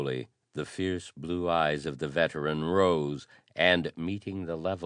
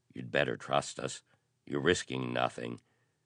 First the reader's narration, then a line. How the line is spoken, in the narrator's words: he warned in a low voice